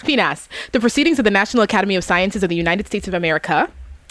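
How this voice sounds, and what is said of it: Very fast rattled-off speech. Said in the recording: “Let me see if I can say this fast.”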